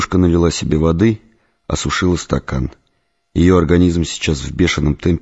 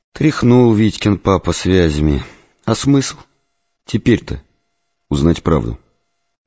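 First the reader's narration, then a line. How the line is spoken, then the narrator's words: Bitter sigh. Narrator (Russian): Лера вздохнула, горько произнесла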